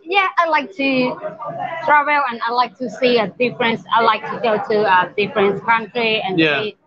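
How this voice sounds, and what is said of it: Sounds a bit Australian. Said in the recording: “Sound a bit Australian.”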